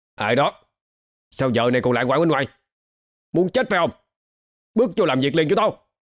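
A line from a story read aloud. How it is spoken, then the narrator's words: Hurried loud shout. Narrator (Vietnamese): hắn gấp gáp hét to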